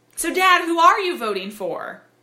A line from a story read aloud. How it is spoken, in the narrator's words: ask innocently and a little bit too loudly